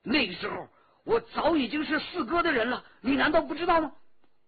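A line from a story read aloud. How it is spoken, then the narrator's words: Angry. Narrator (Chinese): 骆冰怒气冲冲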